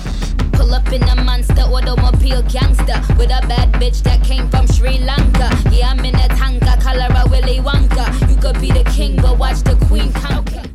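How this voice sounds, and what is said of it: Caribbean accent rap verse. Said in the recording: “the Caribbean accent ... Notice the pronunciation of the word gangsta.”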